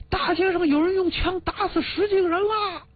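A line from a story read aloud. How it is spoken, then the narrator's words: Shout. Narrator (Chinese): 巷中有人喊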